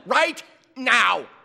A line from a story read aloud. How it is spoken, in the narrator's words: snapped the woman